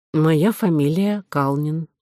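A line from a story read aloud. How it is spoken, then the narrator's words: Calm answer. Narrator (Russian): ответил очкарик спокойно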